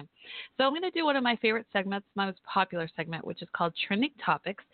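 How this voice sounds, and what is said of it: Southern US accent. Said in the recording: “you hear my southern accent ... I'm from Texas”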